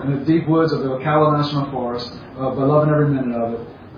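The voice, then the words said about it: Cajun South Louisiana accent. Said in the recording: “my cultural background as a Cajun, if the audience can tell by the accent I am... South Louisiana.”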